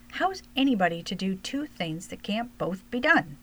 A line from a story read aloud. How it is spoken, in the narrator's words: She exclaimed at last